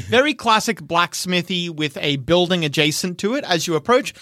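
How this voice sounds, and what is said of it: Usual voice. Nothing is said of it.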